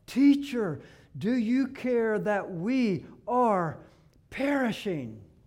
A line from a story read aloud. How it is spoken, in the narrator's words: cried out